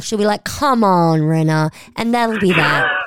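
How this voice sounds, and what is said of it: Impression of Garcelle. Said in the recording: “good Garcelle impression”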